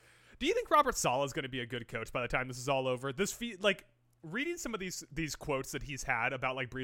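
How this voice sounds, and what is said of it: Usual voice. Nothing is said of it.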